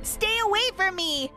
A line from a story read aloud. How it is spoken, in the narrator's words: I screamed at the top of my lungs